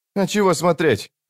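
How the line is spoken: Snapping retort. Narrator (Russian): огрызнулся Крокус

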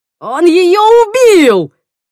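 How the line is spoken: Yelling. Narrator (Russian): заорал Тимоти

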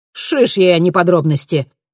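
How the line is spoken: Sharp exclamation. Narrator (Russian): резко воскликнул Вилумсон

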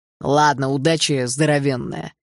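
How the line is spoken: Amused snort. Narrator (Russian): хмыкнул Гремлин

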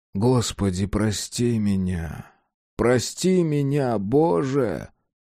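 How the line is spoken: Hoarse sleepy mumbling whisper. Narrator (Russian): когда гигант почти уже заснул, он хрипло шептал и бормотал

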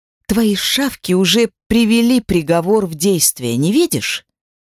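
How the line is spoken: Growled. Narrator (Russian): прорычала Дельфи

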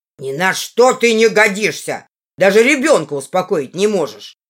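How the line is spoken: Brother shouting. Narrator (Russian): кричал мне брат

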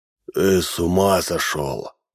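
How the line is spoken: Creaky voice. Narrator (Russian): проскрипел Минц

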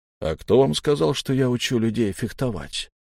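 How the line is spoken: Calm reply. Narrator (Russian): спокойно ответил Вагнер

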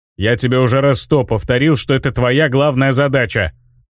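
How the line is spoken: Growling bomber. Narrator (Russian): прорычал бомбовоз

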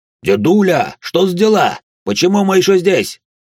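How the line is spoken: Yelled. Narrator (Russian): заорал Сарен

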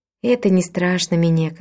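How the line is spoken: Calm. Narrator (Russian): спокойно сказала тетушка Уима

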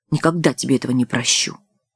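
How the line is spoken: Menacing. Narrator (Russian): грозно добавила

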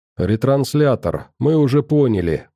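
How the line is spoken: Mutter. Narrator (Russian): буркнула Ульяна

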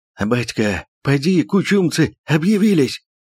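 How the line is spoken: Breathless hoarse Cossack. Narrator (Russian): Запыхавшись от бега, прохрипел казак

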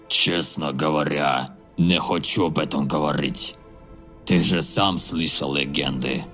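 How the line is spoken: Thoughtful rasp. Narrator (Russian): Нергал задумчиво прохрипел

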